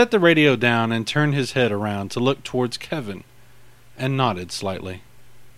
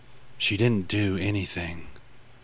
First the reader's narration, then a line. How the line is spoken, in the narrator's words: Kevin muttered lowly